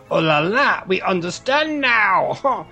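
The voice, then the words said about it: Exaggerated bad French accent. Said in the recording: “What on earth was that strange noise coming from your mouth? ... That was my best French. ... your best French accent ... my worst French accent”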